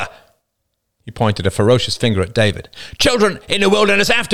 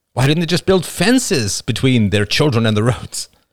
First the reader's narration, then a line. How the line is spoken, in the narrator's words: He laughed sadly